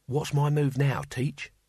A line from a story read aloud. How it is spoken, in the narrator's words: Cohen whispered